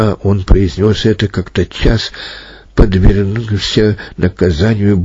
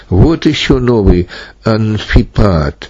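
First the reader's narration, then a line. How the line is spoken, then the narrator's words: Laughing. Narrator (Russian): Один котянин засмеялся и сказал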